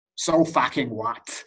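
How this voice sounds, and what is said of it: Put-on American accent. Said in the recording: “As a American accent.”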